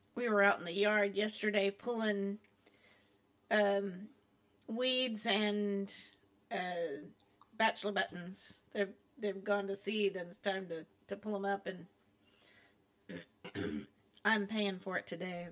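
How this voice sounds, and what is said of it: Raspy voice with coughing. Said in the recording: “That's why I'm so raspy and I keep coughing.”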